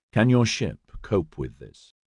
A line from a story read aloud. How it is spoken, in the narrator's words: Trachtenberg leaned in close to Justine and quietly asked